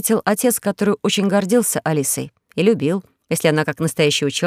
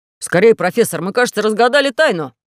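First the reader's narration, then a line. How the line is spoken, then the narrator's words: Young man exclaiming. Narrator (Russian): воскликнул молодой человек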